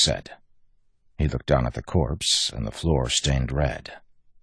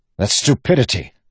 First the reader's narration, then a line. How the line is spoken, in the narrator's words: Wax snapped